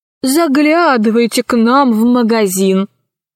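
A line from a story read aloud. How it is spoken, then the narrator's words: Laughing bunny. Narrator (Russian): засмеялся зайчик Хосе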